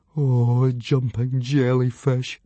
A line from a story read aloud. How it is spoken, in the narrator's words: moaned Fishlegs